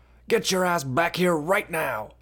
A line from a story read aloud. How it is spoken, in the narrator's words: hollered back